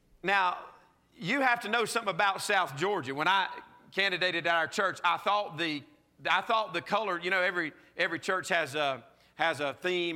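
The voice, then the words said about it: Southern US South Georgia accent. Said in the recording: “I'm from South Georgia, okay? If you can't tell from the accent by now, that's where this accent comes from. Good old South Georgia.”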